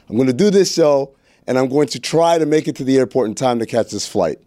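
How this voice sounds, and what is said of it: Out of breath, breathless speech. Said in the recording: “Why are you out of breath? ... I'm out of breath”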